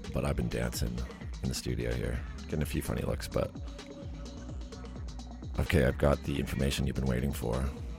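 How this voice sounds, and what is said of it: Flat monotone radio voice. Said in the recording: “You might not be able to tell from my monotone”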